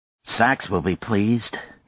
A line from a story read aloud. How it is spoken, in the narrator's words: Nadia said grimly